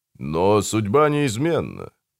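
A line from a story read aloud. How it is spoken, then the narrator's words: Drawn out. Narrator (Russian): протянул Мартин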